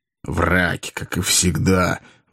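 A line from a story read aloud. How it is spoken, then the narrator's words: Grumbling. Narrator (Russian): ворчала Азазелла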